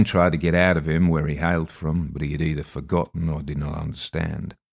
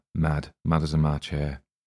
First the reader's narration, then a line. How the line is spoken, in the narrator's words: I heard Spicer mutter